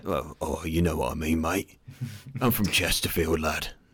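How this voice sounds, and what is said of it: Gruff put-on Derbyshire accent. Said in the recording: “What accent is that exactly? ... That's way more gruff than I've ever sounded in my life.”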